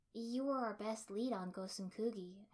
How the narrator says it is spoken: I said softly

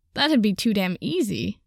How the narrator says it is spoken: Katsuki laughed

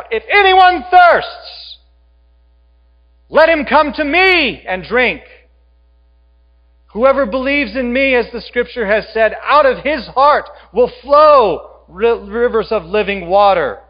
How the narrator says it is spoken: He stands up and he shouts out

